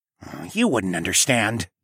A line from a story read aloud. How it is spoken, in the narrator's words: Tawa grumbled